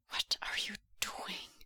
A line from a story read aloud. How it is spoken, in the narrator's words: Wei Ying whispers, harsh and plaintive